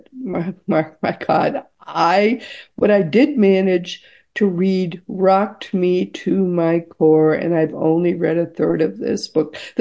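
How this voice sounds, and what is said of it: Strained, hoarse, fading voice. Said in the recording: “I'm already losing my voice”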